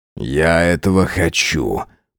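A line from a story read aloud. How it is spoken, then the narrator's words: Growling. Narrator (Russian): прорычал он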